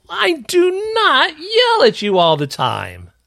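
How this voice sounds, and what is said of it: Loud, yelling voice. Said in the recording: “Oh, said in a loud yelling voice.”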